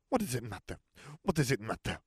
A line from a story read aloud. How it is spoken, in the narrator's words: Fleur snapped